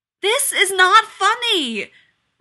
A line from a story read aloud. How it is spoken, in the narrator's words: Rodney yelled